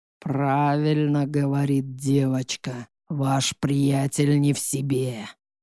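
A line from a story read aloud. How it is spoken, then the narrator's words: Hoarse sepulchral voice. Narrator (Russian): Хриплый замогильный голос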